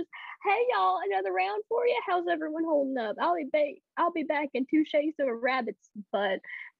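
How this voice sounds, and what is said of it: Texas accent. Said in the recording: “Texas accent ... It was so good ... the way she showed it”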